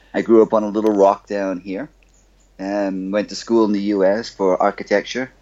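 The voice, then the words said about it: Bahamian accent. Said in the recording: “you can probably tell from my accent that I am um, not exactly from the U.S. I'm from the Bahamas.”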